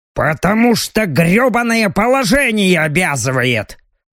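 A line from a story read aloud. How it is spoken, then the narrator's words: Angry reply. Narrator (Russian): зло отозвался Робин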